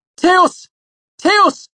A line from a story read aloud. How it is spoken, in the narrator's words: shouted